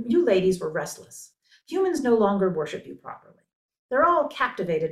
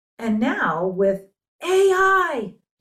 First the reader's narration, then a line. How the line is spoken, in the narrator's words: shouted Arado, muse of love poetry